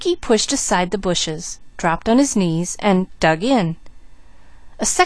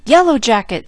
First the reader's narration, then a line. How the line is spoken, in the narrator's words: shouted Jud